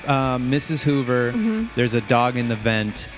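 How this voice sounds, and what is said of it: Impression of the character Ralph. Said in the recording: “do an impression of... who's a character I should do an impression of ... You could probably do a Ralph”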